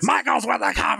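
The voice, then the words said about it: Vince McMahon commentary impression. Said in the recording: “Very good impression. ... I've heard a lot of Vince McMahon impressions, and that's by far at the top of the list.”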